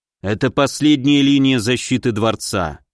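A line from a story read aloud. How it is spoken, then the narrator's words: Grim. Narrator (Russian): мрачно продолжил Филипп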